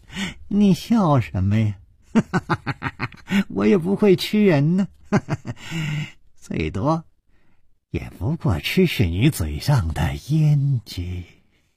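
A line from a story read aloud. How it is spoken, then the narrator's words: Cheerful, grinning. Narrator (Chinese): 脸上更是没有丝毫的悲戚的神色，反而笑嘻嘻地说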